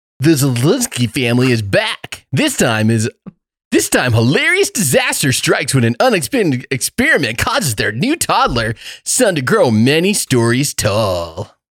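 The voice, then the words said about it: Wacky exaggerated announcer voice. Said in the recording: “I literally put wacky voice... Wacky voice... I couldn't do the normal.”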